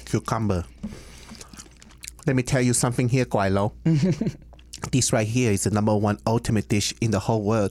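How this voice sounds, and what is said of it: Put-on Americanized Chinese accent. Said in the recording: “It's like an Americanized Chinese accent ... Cantonese from Hong Kong. Like that's kind of how it sounds like”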